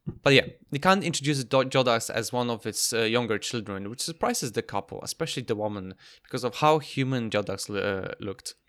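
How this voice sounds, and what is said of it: Broken Polish-English accent. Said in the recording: “My broken Polish-English accent pronunciation”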